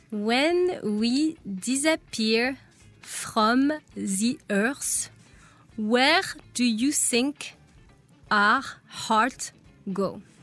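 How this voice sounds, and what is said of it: Exaggerated French accent. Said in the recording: “that hyper-French accent that you said ... Americans like”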